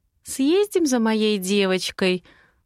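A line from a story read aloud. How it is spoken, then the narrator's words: Gentle, affectionate offer. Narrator (Russian): Ласковым голоском предлагаю я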